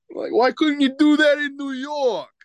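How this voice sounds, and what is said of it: Thick New York accent. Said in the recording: “like a big, thick New York accent”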